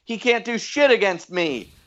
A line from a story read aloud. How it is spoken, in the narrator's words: Butler yelled